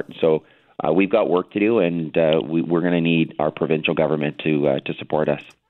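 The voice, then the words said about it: Hoarse, worn-out voice. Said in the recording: “Sorry my voice is a bit gone.”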